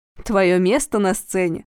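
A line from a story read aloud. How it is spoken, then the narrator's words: Laughing. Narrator (Russian): засмеялся Денис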